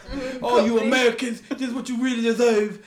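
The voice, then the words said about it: Fake English accent. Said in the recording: “You sound like him putting on a fake English accent.”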